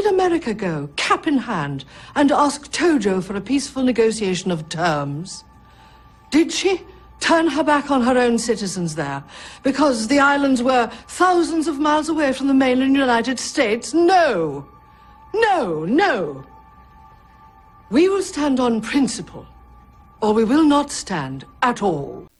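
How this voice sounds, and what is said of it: Precise dialect work as The Iron Lady. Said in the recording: “dialect coach on The Iron Lady. I'm always citing that film as the preeminent example of how dialect work should be done in the films ... Meryl Streep gets all the credit ... all of her dialect work is very specific, very clear, very technical and precise”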